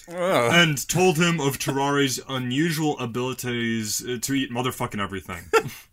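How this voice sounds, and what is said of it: Put-on French accent. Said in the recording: “you got that French accent still going.”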